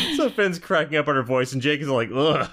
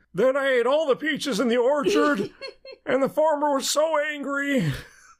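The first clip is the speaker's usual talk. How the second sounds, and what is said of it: Old man character voice. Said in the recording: “yeah, old man ... that was a great impression”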